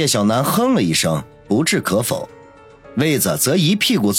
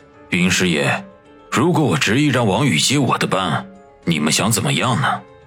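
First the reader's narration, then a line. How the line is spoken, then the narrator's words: Plain. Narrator (Chinese): 孙卫良问道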